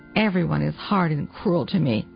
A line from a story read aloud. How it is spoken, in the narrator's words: sighed